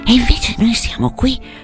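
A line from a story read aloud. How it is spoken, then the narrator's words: Murmur. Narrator (Italian): mormorò Selvaggia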